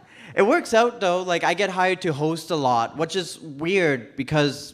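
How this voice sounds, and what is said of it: Newfoundland accent. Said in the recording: “I heard a guy talk exactly like me ... I'm from Newfoundland ... this is my accent”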